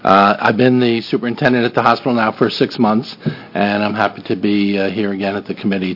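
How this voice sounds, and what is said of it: Slight New Jersey accent, fast. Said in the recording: “I'm from New Jersey, so I can talk really fast, and, even with a slight accent.”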